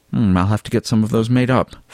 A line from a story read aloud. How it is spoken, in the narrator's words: Fabian murmured